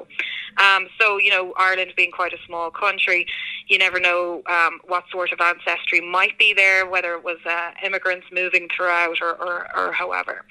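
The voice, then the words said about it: Irish accent. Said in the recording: “this is not a Connecticut accent as well. So I'm actually from Ireland”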